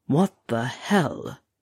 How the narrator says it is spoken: he muttered again

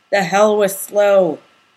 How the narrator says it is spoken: Bobby growled

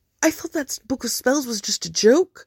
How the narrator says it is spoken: said in a small voice

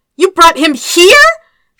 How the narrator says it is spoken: yelled at him

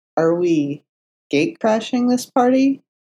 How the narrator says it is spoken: Foggy asked nervously

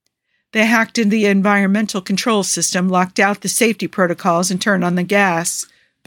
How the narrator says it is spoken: Booker says flatly

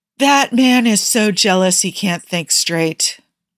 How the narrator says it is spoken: Bucky sighed dramatically

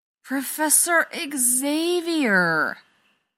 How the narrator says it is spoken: Rodney sighs

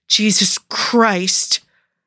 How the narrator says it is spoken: Cougar growled again

